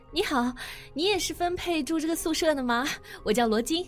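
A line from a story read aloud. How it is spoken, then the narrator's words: Warm, smiling greeting. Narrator (Chinese): 那个女孩子，憨笑着热情招呼道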